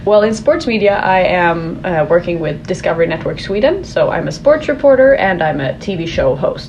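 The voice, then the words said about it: Swedish accent. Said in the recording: “I love your accent.”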